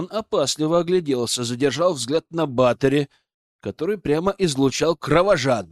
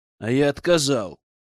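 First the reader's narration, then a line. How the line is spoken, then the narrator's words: Steely voice. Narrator (Russian): сказал я стальным голосом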